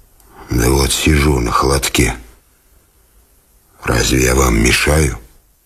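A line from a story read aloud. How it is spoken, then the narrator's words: Hoarse reply. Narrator (Russian): Он отвечал хриплым голосом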